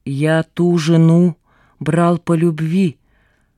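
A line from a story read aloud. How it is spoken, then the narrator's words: Through gritted teeth. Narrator (Russian): сквозь зубы выговорил варяг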